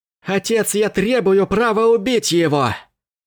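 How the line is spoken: Shouting. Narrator (Russian): крикнул он

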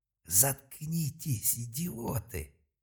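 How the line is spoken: Hissed. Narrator (Russian): зашипел Малка

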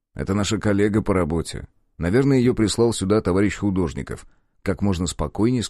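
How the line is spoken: Plain. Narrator (Russian): сказал я

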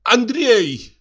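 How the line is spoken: Nearly shouted. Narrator (Russian): почти крикнула она

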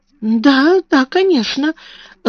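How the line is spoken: Timid agreement. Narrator (Russian): робко согласилась мисс Амелия

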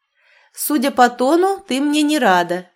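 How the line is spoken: Laughing. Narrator (Russian): засмеялась я

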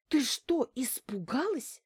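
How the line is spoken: Annoyed whisper. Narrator (Russian): раздосадованно прошептала она

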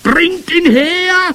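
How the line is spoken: Booming witch's voice. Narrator (German): donnerte die Hoch- und Großmeisterhexe

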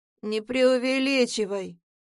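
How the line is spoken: Cold, curt. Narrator (Russian): бросает Тейт холодно

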